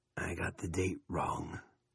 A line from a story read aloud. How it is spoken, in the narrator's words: he said in a brooding voice